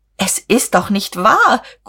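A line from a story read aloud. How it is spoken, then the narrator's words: Shrieking. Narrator (German): Guste kreischte auf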